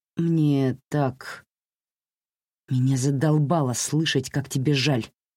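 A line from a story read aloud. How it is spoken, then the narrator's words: Hiss. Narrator (Russian): прошипела Джузи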